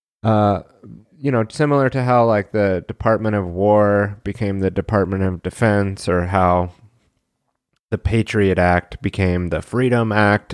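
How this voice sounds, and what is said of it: Soft NPR-style radio voice. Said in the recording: “NPR voice ... nice and softly”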